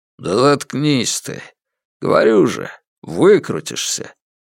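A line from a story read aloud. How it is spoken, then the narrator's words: Gruff mutter. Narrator (Russian): Братец Хук буркнул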